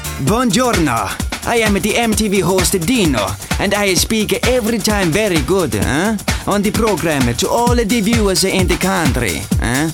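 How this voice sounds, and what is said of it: Exaggerated comic foreign accent. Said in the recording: “they all like me accent”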